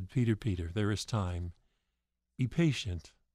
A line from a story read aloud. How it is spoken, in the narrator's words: Jesus gently patted his hand and said